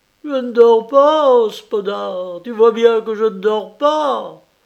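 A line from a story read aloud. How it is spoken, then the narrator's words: Wild cry ending in sob. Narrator (French): Ce cri sauvage finit dans un sanglot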